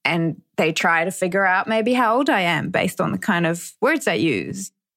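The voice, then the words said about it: Romanian accent in English. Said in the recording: “I'm Romanian by birth ... As soon as I open my mouth, people kind of try and place my accent or place where I'm from.”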